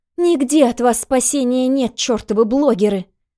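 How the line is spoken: Angry shout, young woman. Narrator (Russian): Зло выкрикнула девушка

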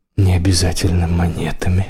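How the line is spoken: Whispering. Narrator (Russian): прошептал

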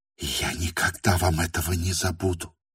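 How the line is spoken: Rapid whisper. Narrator (Russian): вдруг прошептала скороговоркой

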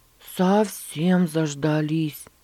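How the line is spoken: Sighing like old man. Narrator (Russian): ответил он, вздохнув, как старичок

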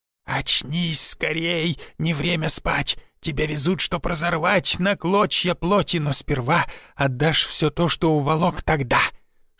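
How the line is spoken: Hissing in the ear. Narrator (Russian): шипел мне Гоп на ухо

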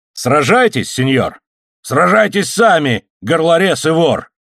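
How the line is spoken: Desperate shout. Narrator (Russian): крикнул доведенный до отчаяния сержант

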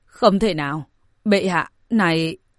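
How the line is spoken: Stunned, bursting out laughing. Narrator (Vietnamese): Minh Vương cũng ngây người, không khỏi bật cười

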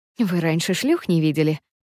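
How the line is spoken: Gentle clarifying question. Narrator (Russian): Уточняю ласково

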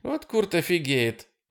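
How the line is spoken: Laughing. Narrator (Russian): засмеялась Дана

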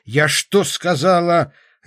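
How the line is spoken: Barking shout. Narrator (Russian): рявкнула

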